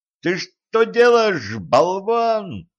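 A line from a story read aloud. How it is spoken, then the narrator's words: Howling. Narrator (Russian): взвыл Денис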